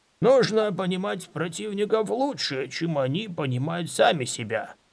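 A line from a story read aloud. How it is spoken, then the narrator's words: Growled. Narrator (Russian): зарычал он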